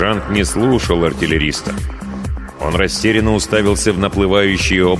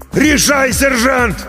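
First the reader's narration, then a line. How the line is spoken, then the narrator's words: Yell right by ear. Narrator (Russian): Прямо над ухом заорал артиллерист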